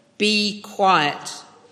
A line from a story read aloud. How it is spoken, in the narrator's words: Jesus said sternly